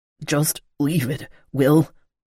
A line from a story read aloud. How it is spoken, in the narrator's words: someone growled